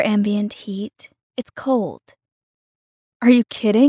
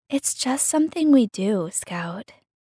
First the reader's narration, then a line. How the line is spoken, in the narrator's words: sighed Emmy